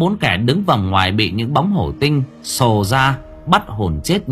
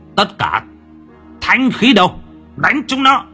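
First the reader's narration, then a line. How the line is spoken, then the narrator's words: Shouting. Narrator (Vietnamese): Mễ Phạm quát lên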